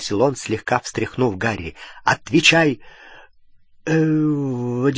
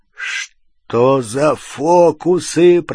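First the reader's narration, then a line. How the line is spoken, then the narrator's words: Growled. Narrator (Russian): прорычал Хагрид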